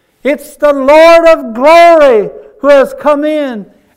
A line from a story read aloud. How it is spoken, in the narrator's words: hollered back and said